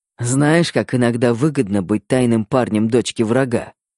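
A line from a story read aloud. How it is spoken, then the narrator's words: Amused snort. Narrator (Russian): Хмыкнул Верняков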